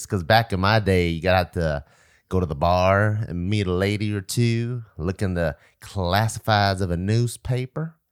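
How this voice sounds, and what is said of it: Put-on Southern American accent. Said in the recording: “Where's the Southern accent coming from?”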